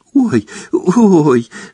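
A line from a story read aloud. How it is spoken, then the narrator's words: Giggling. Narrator (Russian): сказала Лаванда и, хихикая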